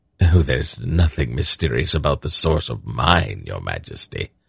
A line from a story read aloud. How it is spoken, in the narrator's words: Silk said dryly